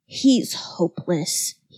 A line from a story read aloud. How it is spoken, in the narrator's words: he muttered